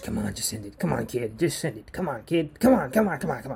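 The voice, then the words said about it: Creepy put-on voice. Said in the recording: “creepy voice”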